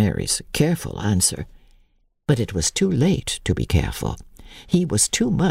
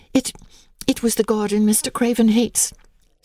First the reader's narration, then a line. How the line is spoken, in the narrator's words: said Mary, nervously